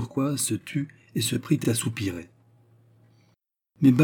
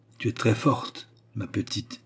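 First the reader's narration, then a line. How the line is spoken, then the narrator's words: Biting, ironic voice. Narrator (French): lui dit-elle d'une voix mordante, ironique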